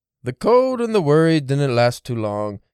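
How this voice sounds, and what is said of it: Reads aloud in a put-on accent. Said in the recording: “the accent kind of gave me that”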